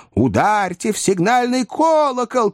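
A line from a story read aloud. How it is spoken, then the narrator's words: Several voices shouting. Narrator (Russian): крикнуло несколько голосов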